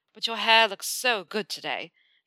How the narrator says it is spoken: Draco drawls

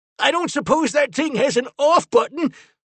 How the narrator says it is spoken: Finn shouted over the chaos

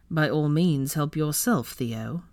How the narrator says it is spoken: Draco drawled sarcastically

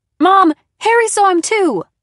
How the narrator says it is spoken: screamed

